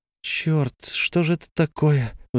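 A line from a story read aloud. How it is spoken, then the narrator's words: Sigh. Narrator (Russian): вздохнула она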